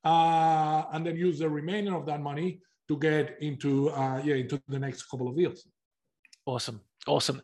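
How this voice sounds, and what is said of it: Non-Australian foreign accent. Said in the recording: “as you can tell by my accent, you know, wasn't born in Australia”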